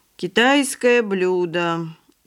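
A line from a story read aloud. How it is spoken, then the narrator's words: Exhausted, unenthusiastic reply. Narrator (Russian): измученным голосом ответил Павлик, не выказывая ни малейшего энтузиазма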